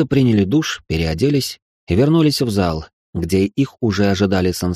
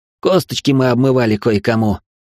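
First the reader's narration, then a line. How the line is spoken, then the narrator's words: Snorting chuckle. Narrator (Russian): хмыкнул Алекс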